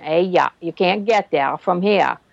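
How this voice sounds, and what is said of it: Put-on Maine down east accent. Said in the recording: “in Maine they have a draw. you know, the down east accent.”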